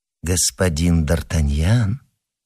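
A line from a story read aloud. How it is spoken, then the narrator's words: Insinuating call. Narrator (Russian): позвал Мазарини вкрадчивым голосом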